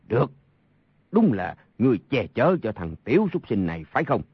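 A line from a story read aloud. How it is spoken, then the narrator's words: Angry. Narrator (Vietnamese): Sa Thông Thiên tức giận nói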